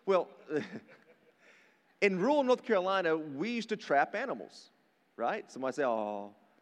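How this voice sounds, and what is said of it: Southern American accent. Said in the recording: “I grew up in rural North Carolina, if you can't tell by my accent.”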